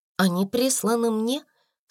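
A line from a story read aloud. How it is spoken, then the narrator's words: Calm. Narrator (Russian): спокойно ответила Сара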